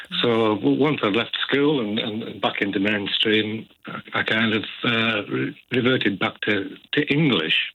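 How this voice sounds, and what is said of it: Cumbrian-Orcadian accent with Geordie twang. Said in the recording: “I did think it was a Geordie accent or slight twang of Geordie accent. It's a lovely accent. ... It's kind of a mixture between Arcadian and Cumbrian, I guess.”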